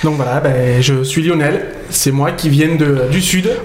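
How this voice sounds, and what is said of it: Strong southern French accent. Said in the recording (French): “oh l'accent, ça s'entend”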